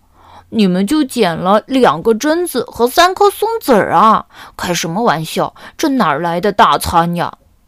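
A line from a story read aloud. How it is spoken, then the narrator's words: Reminding. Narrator (Chinese): 小刺头提醒道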